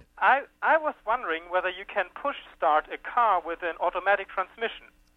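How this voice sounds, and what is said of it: German accent. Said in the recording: “I'm originally from Germany... Not with that accent.”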